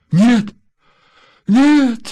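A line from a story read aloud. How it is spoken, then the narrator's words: Frightened, wailing stopped. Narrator (Russian): испуганно сказала, перестав причитать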